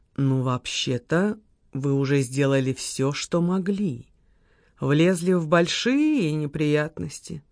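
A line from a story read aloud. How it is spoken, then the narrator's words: Low voice. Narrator (Russian): Леня проговорил вполголоса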